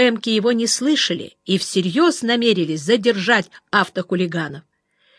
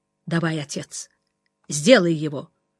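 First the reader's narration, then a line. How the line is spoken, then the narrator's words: Quiet. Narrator (Russian): Жеглов тихо сказал Копырину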